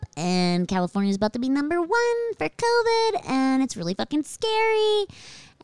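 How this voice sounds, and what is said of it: Speaking in a high-pitched voice. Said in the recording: “I'm talking in a really high voice”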